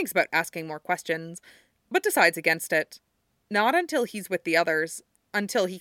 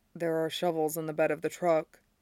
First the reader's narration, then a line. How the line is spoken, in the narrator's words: says under his breath